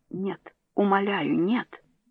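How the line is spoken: Pleading whisper. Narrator (Russian): Мисс Джонсон прошептала

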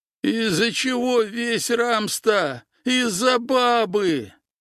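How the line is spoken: Pained shout. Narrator (Russian): прокричал он через боль, морщась

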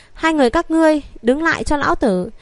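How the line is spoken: Deep menacing shout. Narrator (Vietnamese): vang lên một tiếng quát âm trầm

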